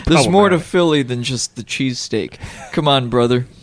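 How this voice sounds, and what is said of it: Put-on Philly guy voice. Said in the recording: “that's my Philly guy voice. That's not even a Philly accent. It's the friend who moved to Philly and now identifies as Philadelphian.”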